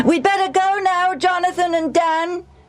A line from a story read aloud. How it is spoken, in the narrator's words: Benny yelled